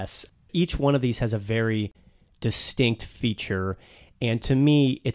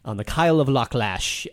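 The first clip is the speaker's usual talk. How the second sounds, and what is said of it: Put-on Scottish accent. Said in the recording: “that's my Scottish accent.”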